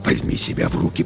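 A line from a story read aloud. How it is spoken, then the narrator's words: Hissing. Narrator (Russian): прошипел капитан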